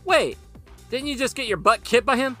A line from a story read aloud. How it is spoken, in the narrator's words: Ryan shouted after him